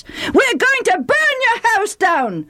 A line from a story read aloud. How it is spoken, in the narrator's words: the Ephraimites screamed